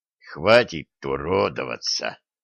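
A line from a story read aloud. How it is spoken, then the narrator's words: Straining hoarse rasp. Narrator (Russian): Поднатужившись, прохрипел Олег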